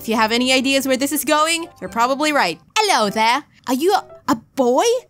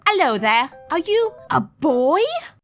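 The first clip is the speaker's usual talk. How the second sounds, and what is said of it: Weak put-on British accent. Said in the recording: “That is the best British accent I have. I'm so sorry, British people.”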